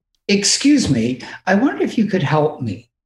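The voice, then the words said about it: Put-on posh English accent. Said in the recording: “with my best English accent”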